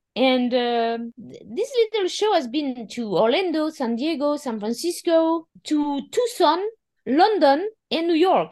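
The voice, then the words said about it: French accent in English. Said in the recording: “in French... even after 13 years in America... I cannot lose my accent. It's impossible... My accent is impossible to lose”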